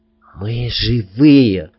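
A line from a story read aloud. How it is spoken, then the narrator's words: Whisper. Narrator (Russian): прошептал я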